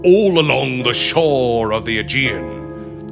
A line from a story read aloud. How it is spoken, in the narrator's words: he bellowed, with a kind of hoarse triumph that shook the heart